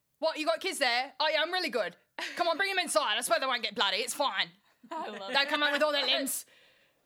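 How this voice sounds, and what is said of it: Exaggerated put-on Cockney accent. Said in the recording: “I did that really horrible Cockney accent for her”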